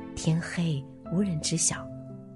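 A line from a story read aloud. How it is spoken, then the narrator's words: Whisper. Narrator (Chinese): 官员悄声说道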